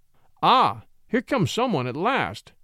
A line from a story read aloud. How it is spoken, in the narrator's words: he cried, brightening up